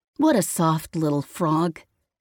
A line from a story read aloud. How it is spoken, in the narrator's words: the boy scoffed